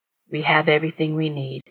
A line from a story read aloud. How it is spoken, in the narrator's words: Jared said softly